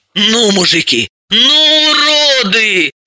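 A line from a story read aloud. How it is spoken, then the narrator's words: Exalted exclamation. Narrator (Russian): экзальтированно воскликнула Елизавета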